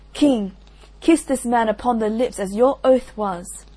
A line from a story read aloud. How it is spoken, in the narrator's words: Iseult cried